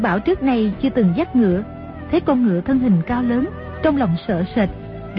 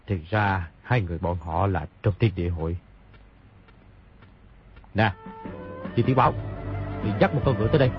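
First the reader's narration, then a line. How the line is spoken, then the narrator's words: Muttering. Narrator (Vietnamese): lẩm bẩm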